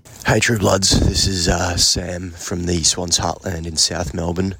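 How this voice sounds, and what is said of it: Hoarse, partly lost voice. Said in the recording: “You can tell I've lost my voice a bit. I'm a bit worse for wear this morning”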